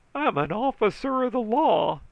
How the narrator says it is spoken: he howled, trying to get his neck out from under my foot

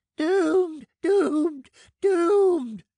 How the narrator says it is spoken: shrieked Shrifton, and then breaking into a wild fit of laughter

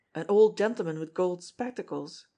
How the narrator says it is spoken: he ejaculated sharply

